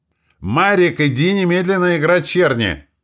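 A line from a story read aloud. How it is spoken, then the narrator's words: Even louder yelling. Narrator (Russian): Еще громче заорала Роза Петровна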